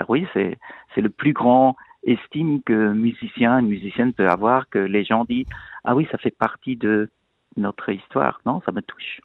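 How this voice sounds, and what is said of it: Pleasant foreign accent in French. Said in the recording (French): “Ce bel accent que vous entendez”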